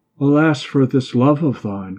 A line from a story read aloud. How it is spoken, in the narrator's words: cried Hilding